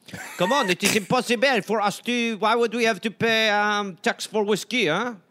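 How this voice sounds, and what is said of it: Mock French accent. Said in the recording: “had a French accent ... That damn accent”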